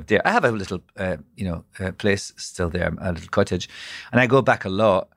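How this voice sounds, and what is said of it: Scottish accent. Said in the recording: “I'm Scottish ... how I sounded, my accent ... My accent is nice”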